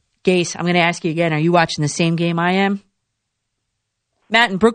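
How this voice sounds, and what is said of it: Usual voice. Nothing is said of it.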